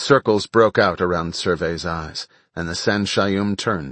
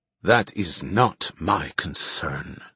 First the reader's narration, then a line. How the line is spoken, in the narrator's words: Survey hissed